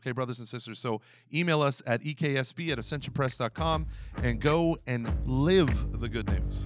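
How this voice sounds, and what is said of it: Preacher-like sermon delivery. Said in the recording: “I sounded like a deacon who just ended mass.”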